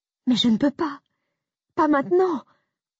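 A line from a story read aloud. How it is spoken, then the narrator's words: Sobbing. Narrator (French): ai-je sangloté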